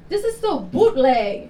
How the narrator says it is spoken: she yells, tired of the ride

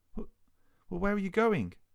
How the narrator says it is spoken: managed to stutter

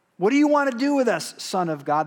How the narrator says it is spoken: They shouted it

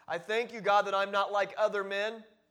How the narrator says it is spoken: loudly enough that other men and women can hear

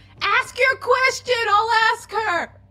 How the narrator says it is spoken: I turn around and yell at Ozum

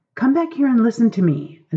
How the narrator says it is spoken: Aziraphale cried

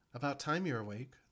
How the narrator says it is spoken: the Dara said happily, though without as much strength as she usually exhibited

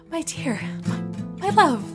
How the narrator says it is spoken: he gasped as audibly as she would let him

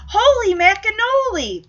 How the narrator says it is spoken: Punky exclaims

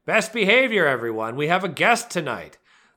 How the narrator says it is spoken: shouting

